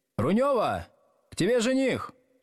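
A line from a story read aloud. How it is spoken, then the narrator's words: Woman shouting across room. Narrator (Russian): какая-то женщина крикнула в глубину помещения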